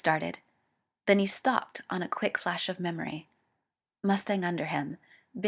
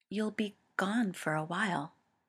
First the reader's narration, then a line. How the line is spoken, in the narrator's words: said softly